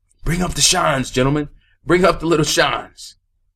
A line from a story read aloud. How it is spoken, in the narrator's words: the school superintendent yell